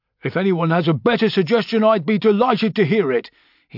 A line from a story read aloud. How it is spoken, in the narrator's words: he snapped